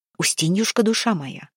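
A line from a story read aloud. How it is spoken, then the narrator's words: Whispering from outside. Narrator (Russian): зашептали снаружи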